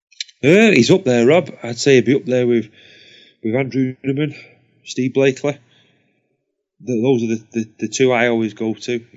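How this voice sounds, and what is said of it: Hoarse, strained voice. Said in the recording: “losing my voice”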